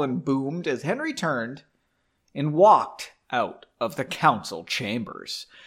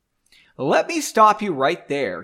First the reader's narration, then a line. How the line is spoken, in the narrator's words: he said loudly